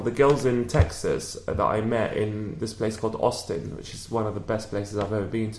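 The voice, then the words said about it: British accent. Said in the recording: “because I'm British as well with my accent”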